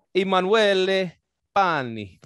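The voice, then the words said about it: Put-on Italian accent. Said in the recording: “that's my Italian accent.”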